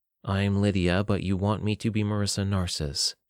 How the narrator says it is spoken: she said in her deadpan tone

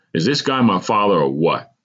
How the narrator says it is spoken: I asked sternly

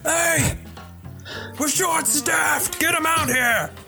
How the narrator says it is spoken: a servant yell back

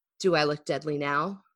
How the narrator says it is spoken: growled

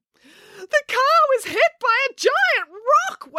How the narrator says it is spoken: wailed Daisy

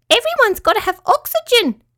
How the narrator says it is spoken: squeaked Petruchio

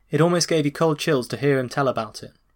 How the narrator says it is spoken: Rose later said

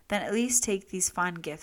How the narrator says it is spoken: said the emperor

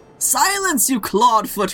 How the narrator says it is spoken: roared the skipper

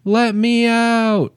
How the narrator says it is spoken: screaming

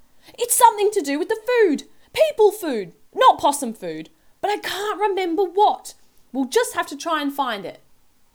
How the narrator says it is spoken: she shouted

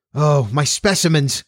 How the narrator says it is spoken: cried the doctor, dashing up the rest of the stairs at top speed

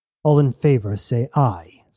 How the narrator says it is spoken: Sornois roared

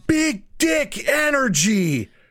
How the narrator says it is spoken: all of a sudden someone just yells

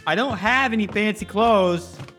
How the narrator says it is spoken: he yells downstairs

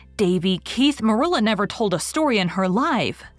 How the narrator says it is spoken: said Anne indignantly

